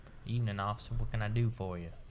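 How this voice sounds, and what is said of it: Put-on Southern American accent. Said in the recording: “talking like in a southern accent?”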